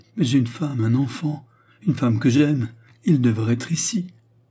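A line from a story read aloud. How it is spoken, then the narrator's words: Exclaimed. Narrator (French): s'écria-t-il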